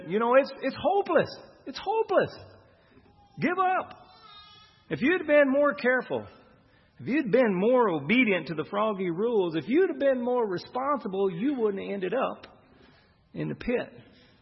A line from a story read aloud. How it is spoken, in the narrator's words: Some of the frogs shouted in the pit